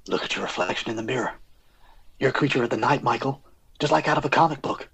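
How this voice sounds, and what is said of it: Imitates an actor's voice. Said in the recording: “do an impression of this actor”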